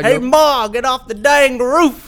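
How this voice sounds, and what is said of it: Put-on deep Southern US accent. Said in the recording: “putting a southern accent ... On it? Like a real deep southern.”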